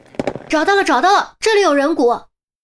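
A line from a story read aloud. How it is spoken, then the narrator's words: Loud shout. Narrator (Chinese): 有人大喊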